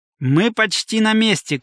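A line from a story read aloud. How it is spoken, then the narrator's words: Shouted. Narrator (Russian): крикнул Митчелл Оуэнсу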